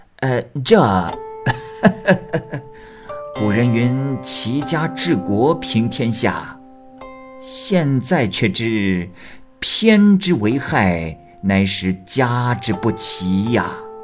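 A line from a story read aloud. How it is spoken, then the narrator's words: Laughing. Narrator (Chinese): 新县令听后笑道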